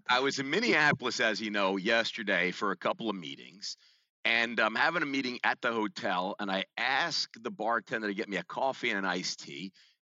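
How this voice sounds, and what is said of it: New York American accent. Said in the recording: “your American New York Shatsy accent”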